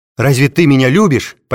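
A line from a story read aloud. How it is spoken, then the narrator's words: Almost shouting. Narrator (Russian): почти крикнула она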